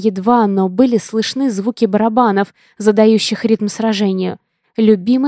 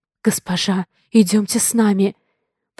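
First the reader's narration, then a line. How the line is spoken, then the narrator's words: Whisper. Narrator (Russian): прошептала Элли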